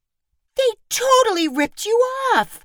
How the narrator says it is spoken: Mina cried

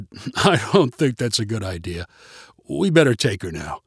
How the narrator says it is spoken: Roger chuckled and said

